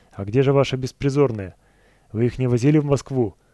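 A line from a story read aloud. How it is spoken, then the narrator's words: Loud bark. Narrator (Russian): Антон как гаркнет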